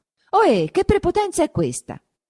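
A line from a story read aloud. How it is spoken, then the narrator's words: Shouted. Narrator (Italian): gridò Renzo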